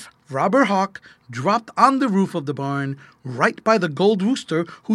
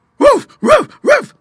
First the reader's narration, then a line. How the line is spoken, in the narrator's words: barked little Wienerwurst to explain it more clearly